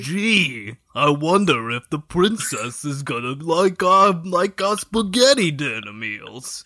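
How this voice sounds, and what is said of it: Mario cartoon character voice. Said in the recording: “Can you do the Mario voice?”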